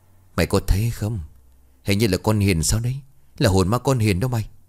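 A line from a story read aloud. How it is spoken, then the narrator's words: Trembling with fear. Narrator (Vietnamese): Một tên vì quá sợ hãi mà run rẩy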